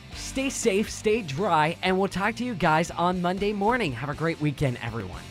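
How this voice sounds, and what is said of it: Excited, upbeat voice. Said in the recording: “If you can't hear it in my voice, I'm excited.”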